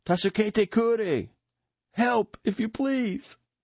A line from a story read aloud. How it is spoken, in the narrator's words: ruins from which these cries came